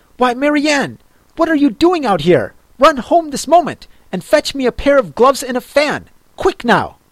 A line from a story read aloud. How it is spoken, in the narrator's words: the rabbit called out to her in an angry tone